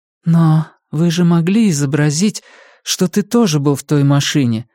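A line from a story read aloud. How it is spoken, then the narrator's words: Exclaiming. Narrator (Russian): воскликнула Валерия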